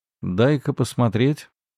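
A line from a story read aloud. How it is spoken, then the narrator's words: Calm tone. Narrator (Russian): спокойным тоном произнес Сунь Фэй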